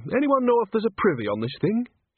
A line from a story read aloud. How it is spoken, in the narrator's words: She added brightly